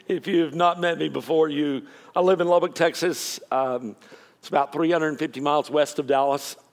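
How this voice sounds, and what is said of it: Texan accent. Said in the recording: “I speak Texan.”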